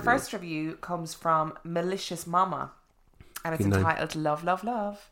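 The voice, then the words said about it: Irish accent. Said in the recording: “Irish accent is lovely”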